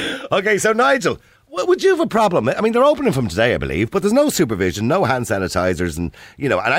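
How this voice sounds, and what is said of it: Usual voice. Nothing is said of it.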